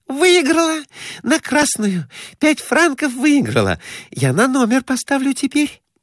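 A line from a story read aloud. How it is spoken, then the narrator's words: Joyful whisper. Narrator (Russian): Глафира Семеновна радостно шептала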